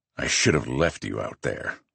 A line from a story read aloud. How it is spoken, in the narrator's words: I growl